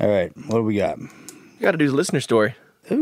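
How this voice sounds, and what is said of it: Usual voice. Nothing is said of it.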